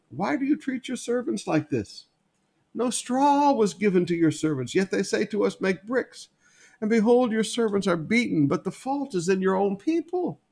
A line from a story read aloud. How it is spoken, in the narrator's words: the foreman of the people of Israel came and cried to Pharaoh